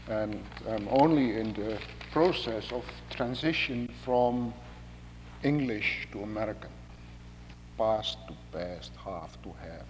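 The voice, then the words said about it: Indonesian-accented English. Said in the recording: “that's because of my Indonesian accent.”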